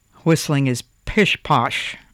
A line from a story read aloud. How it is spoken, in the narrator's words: said the woodcarver gruffly